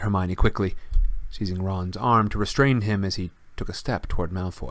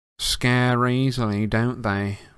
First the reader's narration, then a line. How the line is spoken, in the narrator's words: he said lazily